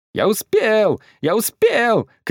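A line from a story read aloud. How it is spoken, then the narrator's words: Shouting. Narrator (Russian): кричал Пчелкин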